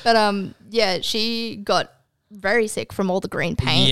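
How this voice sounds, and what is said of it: Usual voice. Nothing is said of it.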